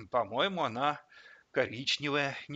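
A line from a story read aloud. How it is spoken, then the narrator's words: Uncertain. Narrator (Russian): неуверенно сказал Вовка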